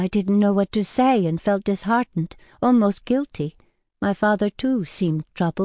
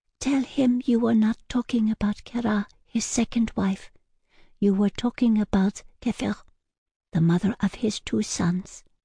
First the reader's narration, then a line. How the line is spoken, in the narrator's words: forlornly, the young woman whispered in my ear